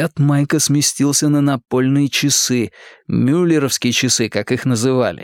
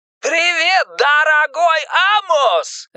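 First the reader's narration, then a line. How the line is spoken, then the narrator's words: Joyful shout over phone. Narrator (Russian): радостно кричал Пеннивайз из мотающейся трубки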